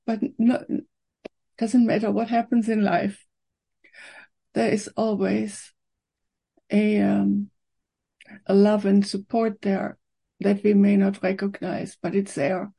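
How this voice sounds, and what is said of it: Emotional, choked-up voice. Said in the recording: “I don't know why I'm getting emotional,”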